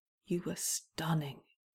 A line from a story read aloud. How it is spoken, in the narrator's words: whispers